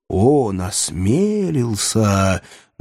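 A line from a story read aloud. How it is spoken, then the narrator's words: Solemn. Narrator (Russian): начал торжественно Труазешель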